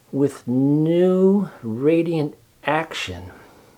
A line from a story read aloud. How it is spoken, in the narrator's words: repeated Charlotte slowly